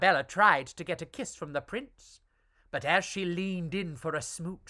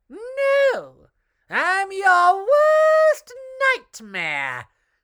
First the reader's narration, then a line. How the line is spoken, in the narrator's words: screeched Arabella